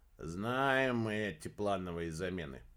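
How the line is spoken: Grumbling. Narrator (Russian): проворчал младший Нуланд

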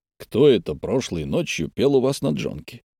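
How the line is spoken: Quiet question. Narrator (Russian): тихо спросил Сунь-Фу

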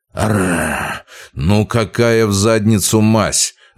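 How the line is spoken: Irritated straining growl. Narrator (Russian): Раздраженно прорычал я, пытаясь подняться

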